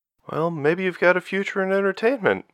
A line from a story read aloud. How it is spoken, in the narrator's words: Rachel suggested with an awkward laugh